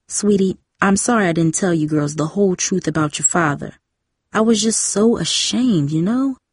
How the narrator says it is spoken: Mom said softly

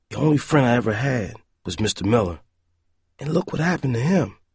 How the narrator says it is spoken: thought sadly

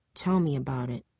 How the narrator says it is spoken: Jamie murmured

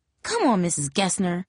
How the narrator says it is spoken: Jamie snapped

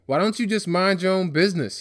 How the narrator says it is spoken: he snapped

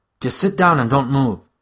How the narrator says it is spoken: she said, nervously

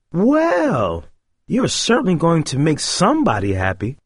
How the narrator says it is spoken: the sales clerk said cheerfully

